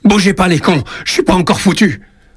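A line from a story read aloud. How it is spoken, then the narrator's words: Shouted in rage. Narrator (French): Il crie sa rage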